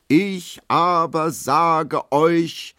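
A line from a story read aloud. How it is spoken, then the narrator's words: Lion-like roar. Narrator (German): brüllt er mit Löwenstimme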